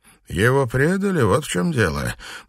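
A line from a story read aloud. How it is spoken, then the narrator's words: Gloomy pronouncement. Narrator (Russian): мрачно изрек Суслив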